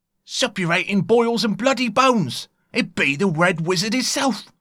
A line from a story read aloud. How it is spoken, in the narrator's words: exclaimed a second troll